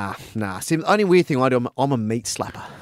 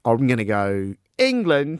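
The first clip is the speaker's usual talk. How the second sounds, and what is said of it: Put-on English accent. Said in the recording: “You just like doing the English accent, taking the mick.”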